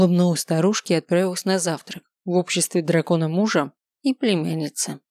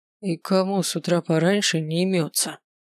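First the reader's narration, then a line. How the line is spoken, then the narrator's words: Displeased grumbling. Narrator (Russian): донеслось до меня недовольное ворчание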